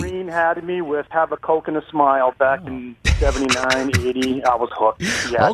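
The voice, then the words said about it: Regional New England accent. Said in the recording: “with this accent”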